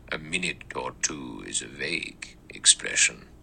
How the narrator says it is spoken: The judge said evenly

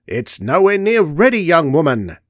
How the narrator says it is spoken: shouted Eldred

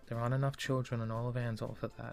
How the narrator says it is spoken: he sighed

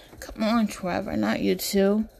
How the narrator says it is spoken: Leonard whines

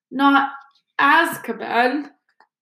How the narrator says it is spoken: croaked Hagrid

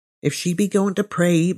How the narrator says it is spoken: murmured our landlady

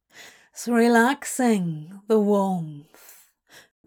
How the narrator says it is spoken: Crowley drawled

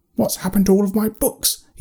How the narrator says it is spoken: snapped

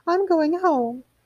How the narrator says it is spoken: quavered Mrs

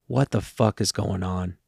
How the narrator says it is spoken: I muttered under my breath

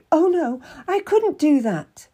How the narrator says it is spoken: I cried out

